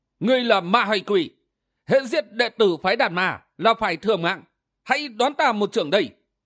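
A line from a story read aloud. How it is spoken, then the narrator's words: Impatient shout. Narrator (Vietnamese): không nhịn được, miệng quát lên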